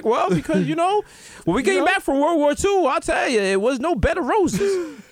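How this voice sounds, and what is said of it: Old person voice. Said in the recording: “you guys have like an old person accent?”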